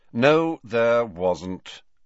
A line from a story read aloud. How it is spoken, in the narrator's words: said Snape in a bored voice